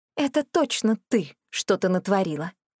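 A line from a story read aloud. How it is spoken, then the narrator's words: Unexpectedly calm. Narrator (Russian): сказала неожиданно спокойно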